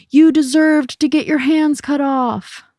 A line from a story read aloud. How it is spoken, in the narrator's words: a boy in the audience yelled